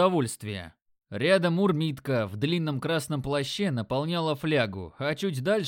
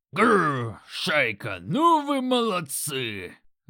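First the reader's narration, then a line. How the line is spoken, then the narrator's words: Loud growl. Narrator (Russian): Грок и зарычал чуть ли не на всю площадь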